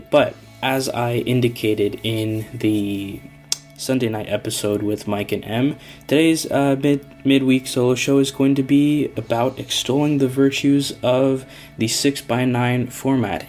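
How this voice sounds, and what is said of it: Stuffy, congested voice. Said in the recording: “if I sound a little stuffy, woke up a little congested”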